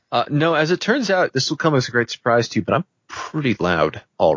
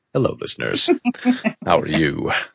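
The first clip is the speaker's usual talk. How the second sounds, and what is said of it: Polished radio announcer voice. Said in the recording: “your sweet radio voice... My sweet radio voice. I'm not using the full radio voice until now”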